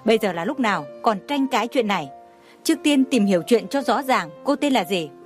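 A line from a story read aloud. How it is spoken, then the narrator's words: Stern question. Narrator (Vietnamese): Thủ tướng nghiêm nghị hỏi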